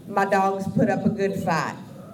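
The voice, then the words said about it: Put-on southern twang. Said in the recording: “I feel the need to add a southern twang when I'm talking for these guys ... it's really the only accent I can do”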